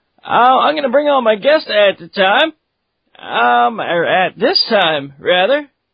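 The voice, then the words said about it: Sleepy, groggy voice. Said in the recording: “I actually woke up from a little bit of an unexpected nap, so my voice is a little bit weird right now ... I'm liking the sleepy voice”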